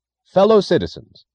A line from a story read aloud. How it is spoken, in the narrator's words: the announcer cried into a microphone